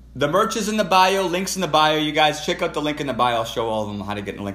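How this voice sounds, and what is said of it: Yelling loudly over others. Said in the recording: “I'm sorry I'm yelling over you guys.”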